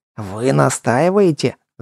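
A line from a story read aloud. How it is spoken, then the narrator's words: Growled. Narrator (Russian): зарычал управляющий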